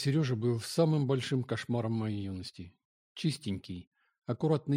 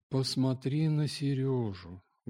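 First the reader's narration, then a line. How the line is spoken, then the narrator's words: Sad mother. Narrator (Russian): говорила печально мать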